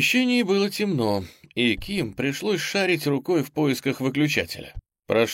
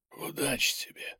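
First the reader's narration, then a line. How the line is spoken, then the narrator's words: Barely audible hoarse rasp. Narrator (Russian): едва слышно прохрипел Рич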